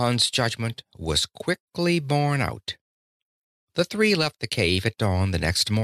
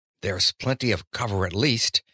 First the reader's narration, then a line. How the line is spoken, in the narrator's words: Honath said in a low voice